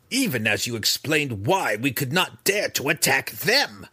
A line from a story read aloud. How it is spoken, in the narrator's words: Breeza growled at her mother